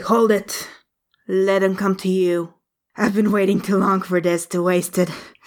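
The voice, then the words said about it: Creepy villain character voice. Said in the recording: “creepy voice, it's creepy!”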